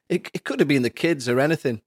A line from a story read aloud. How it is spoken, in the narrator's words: he laughed